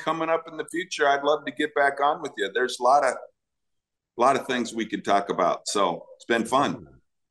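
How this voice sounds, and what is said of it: Great radio voice. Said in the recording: “you have a great radio voice. You really do.”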